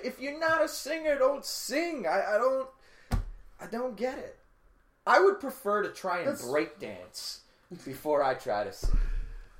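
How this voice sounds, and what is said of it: New York accent. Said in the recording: “my accent? My New York accent?”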